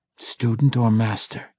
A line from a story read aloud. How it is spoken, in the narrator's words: came the expected whisper